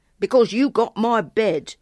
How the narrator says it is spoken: the boy grumbled

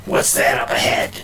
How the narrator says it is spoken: the voice growled

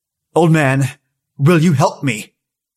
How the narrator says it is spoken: In my bravest voice I said

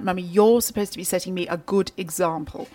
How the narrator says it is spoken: in her best BBC accent, clipped tones

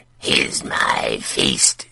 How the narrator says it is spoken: it announced in a voice that screeched like an old iron hinge

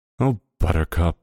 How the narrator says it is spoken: Barbara sighed

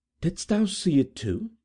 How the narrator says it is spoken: said, in a startled tone

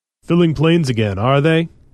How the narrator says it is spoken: He laughed

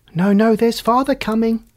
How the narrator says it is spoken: cried the 2 young Cratchits

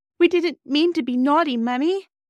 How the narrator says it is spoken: sobbed Bobby

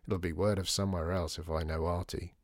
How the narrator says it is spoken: muttered Dor

